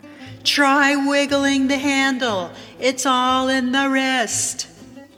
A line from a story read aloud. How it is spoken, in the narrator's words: self-help yells back